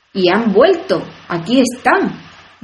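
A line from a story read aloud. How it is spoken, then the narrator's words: Triumphant. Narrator (Spanish): dijo el rey en tono triunfal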